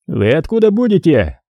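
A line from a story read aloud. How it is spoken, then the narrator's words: Shouting from above. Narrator (Russian): крикнул сверху подполковник Бебешку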